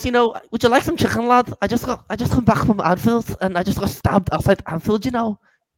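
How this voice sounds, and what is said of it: Put-on Scouse accent. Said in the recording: “I want to give you my Scouse accent, and I want you to tell me if it's a good one”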